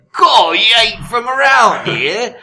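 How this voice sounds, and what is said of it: Put-on British accent. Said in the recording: “Only in British accent, so it's more like ... or more furtive.”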